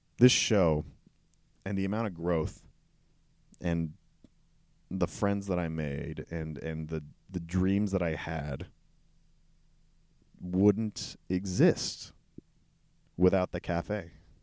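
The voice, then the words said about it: Emotional, choked-up voice. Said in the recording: “I'm going to get emotional.”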